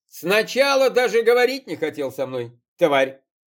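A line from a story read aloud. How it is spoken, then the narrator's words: Nervous laugh. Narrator (Russian): Женечка нервно хохотнул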